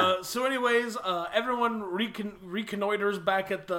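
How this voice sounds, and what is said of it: Usual voice. Nothing is said of it.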